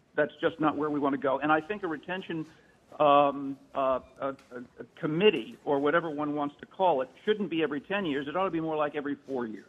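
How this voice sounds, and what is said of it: Peculiar regional accent. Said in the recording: “my peculiar and queer accent”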